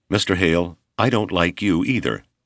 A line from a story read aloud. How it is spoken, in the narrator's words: the young instructor said evenly